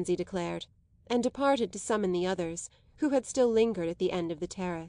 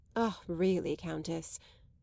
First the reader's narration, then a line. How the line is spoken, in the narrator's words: murmured Madame Merle dissuasively